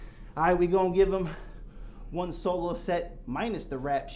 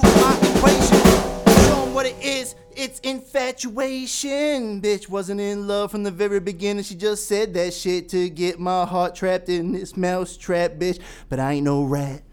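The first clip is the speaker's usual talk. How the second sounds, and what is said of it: Raspy rock star rap voice. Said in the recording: “Got my rock star on, had my raspy voice going.”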